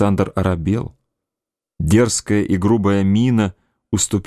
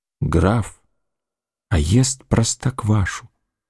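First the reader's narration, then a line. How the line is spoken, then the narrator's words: Hateful whisper. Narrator (Russian): шептал Адуев с ненавистью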